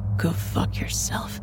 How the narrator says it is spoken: I muttered darkly

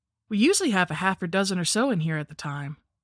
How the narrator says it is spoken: said Rena

